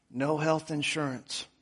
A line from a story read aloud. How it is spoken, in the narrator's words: He replied in a weak, raspy voice